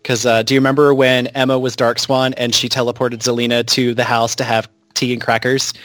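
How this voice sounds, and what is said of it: Usual voice. Nothing is said of it.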